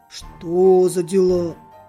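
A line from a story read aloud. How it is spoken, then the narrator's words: Dog's muffled grumble. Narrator (Russian): глухо ворчал пес в своей конуре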